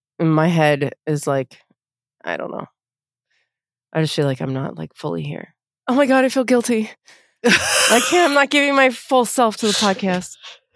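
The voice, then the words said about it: Sick, stuffy-sounding voice. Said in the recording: “I have a cold.”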